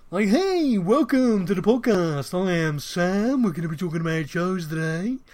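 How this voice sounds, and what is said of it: 1990s radio DJ voice. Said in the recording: “I was very much like I was trying to mimic every DJ I heard in the 90s”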